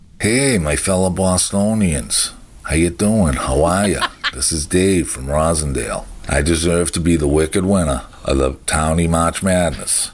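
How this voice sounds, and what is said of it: Strong Boston accent. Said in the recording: “I take pride and passion in my accent. A lot of people say they don't like it, whatever. But I don't care. What am I supposed to do? Change the way I talk? I get the best freaking accent anywhere. North Shore, South Shore”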